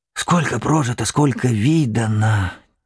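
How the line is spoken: Old man's quiet mutter. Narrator (Russian): тихонько бормотал дед

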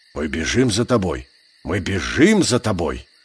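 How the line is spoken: Muttering. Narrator (Russian): пробормотал серый брат

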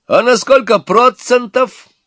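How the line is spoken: Cheerful young man shouting. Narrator (Russian): опять выкрикнул веселый молодой человек

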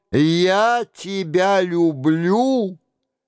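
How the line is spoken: Shouted. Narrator (Russian): Он крикнул

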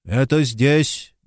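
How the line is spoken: Muffled through moustache. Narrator (Russian): глухо произнес он из-за щетки густых усов

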